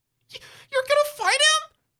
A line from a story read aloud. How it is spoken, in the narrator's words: Mike cries